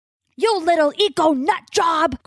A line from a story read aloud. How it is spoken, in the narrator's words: Crow yells